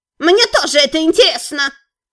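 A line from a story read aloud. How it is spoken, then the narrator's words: Shrill voice. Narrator (Russian): Раздался визгливый голос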